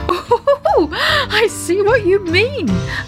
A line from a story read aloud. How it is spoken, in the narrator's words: laughed Daddy Ted